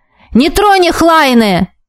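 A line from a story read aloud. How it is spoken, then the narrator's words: Mage yelling into ear. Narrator (Russian): заорал мне в ухо маг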